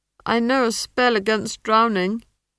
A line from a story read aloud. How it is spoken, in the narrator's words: he added miserably